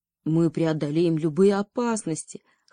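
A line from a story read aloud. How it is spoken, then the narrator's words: Brave shout, prince. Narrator (Russian): храбро крикнул принц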